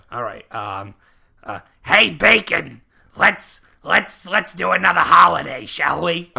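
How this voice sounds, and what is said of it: Stereotyped Jewish character voice. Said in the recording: “my offensive Jew voice”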